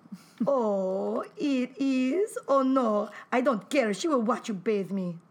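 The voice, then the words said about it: Put-on Lithuanian accent with Russian tinge. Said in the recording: “I guess the accent got a little bit better as it went over, right? ... it went from, like, you know, Zsa-Zsa ... to actual Rue Melania. ... Lithuanian with a Russian accent.”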